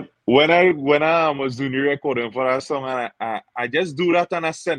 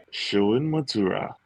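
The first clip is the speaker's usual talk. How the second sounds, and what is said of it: Radio announcer voice. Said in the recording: “Let me hear the radio voice there.”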